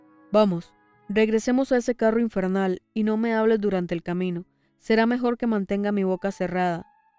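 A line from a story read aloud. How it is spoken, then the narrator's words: Plain. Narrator (Spanish): dijo Hagrid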